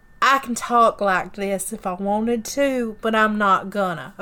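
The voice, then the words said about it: Exaggerated southern accent. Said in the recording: “I can put on a southern accent.”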